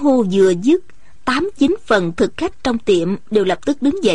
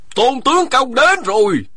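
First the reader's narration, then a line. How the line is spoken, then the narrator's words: Shouting. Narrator (Vietnamese): một người la lên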